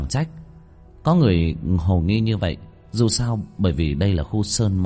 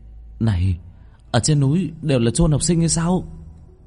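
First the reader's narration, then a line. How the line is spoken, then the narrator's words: Cry out. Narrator (Vietnamese): có người kêu lên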